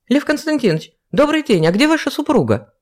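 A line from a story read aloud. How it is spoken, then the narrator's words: Nearly shouted. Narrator (Russian): Едва не выкрикнула Ева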